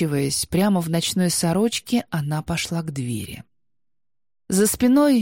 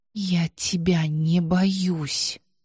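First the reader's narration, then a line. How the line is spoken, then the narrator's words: Strained through pain. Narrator (Russian): процедила она через боль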